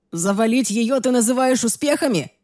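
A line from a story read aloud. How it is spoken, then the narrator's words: Shouted. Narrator (Russian): крикнул Райан с дивана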